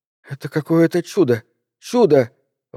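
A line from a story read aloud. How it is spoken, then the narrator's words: Mother exclaiming through sobs. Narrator (Russian): восклицала мать, давясь рыданиями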